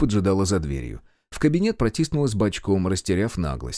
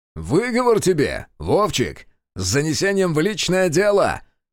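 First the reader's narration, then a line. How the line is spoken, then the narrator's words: Shouting after someone. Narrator (Russian): крикнул вслед Решетов и восхищенно воздел руки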